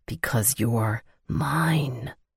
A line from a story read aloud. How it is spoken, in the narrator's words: he growled in a whisper